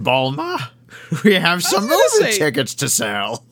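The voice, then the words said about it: Old prospector-like character voice. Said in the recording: “How the hell did we do a Roshi voice? ... He just sounds like an old prospector.”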